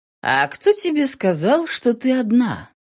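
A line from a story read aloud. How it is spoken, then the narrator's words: Perfectly calm question. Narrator (Russian): Совершенно спокойно вопросил Ронни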